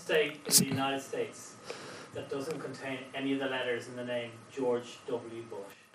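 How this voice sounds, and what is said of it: Thick Eastern European accent. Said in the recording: “he has a thick, thick Eastern European accent”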